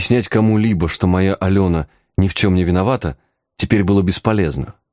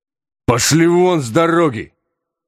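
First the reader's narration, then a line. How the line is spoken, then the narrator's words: Strange-voiced bark. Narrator (Russian): незнакомым мне самому голосом рявкнул я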